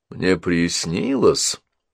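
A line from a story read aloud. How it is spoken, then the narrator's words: Grumbling. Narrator (Russian): проворчал он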